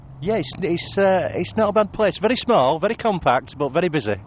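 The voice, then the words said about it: Slight British accent. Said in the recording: “You have a little bit of an accent. ... Yeah, from the UK.”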